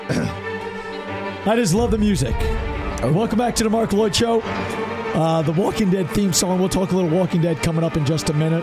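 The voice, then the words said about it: Strained, hoarse voice. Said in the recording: “Thanks for bearing with my voice... I lost my voice, so I'm pushing through the show.”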